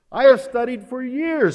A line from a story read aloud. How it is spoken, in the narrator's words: he cried